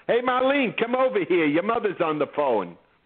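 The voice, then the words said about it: Boston accent. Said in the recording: “It took me 3 years to lose the Boston accent, and then if I'm home for 15 minutes, I'm talking”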